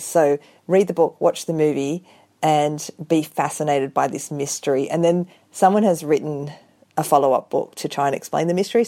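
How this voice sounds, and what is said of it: Australian accent. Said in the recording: “I love your accent too. That makes an Australian novel even better.”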